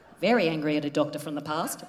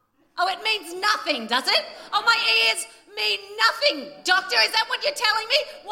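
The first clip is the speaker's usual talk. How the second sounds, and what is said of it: Angry yelling. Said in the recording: “Why am I yelling at you?”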